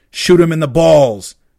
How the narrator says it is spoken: one of the shooters hollered

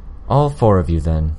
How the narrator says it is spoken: Miss Militia replied, sighing

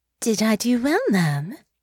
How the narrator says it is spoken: asked playfully

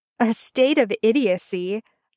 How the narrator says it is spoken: laughed Merlin

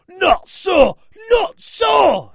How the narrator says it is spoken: screamed Brock

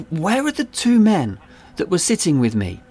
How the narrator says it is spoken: I pleaded

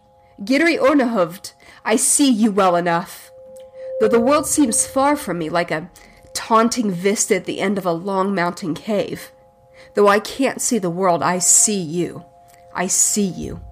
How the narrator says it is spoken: the old man began to shriek

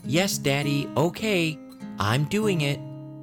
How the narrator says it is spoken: Honora's voice shouting

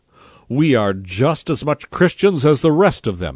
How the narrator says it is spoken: he shouted

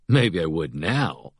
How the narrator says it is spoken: he drawls

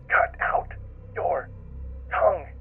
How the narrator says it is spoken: whispers

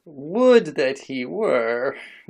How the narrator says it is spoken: groaned Thorhall

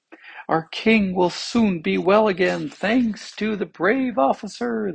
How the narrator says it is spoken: they cried

